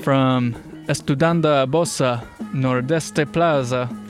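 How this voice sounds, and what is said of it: Put-on Italian accent. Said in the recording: “I don't know why I have an Italian accent. ... it sounds like you're speaking Italian.”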